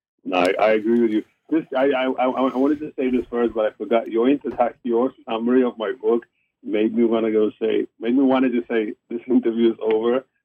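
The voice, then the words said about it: South African accent. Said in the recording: “I can hear your South African accent.”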